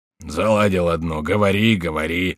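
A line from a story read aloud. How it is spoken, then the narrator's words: Grumbling. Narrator (Russian): заворчал Шико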